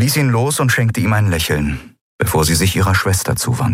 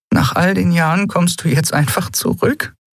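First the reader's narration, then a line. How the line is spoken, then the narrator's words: Half-choked voice. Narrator (German): fragte Elai mit halb erstickter Stimme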